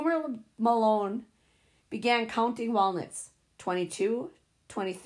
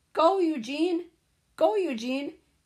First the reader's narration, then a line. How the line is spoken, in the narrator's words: Kids hollering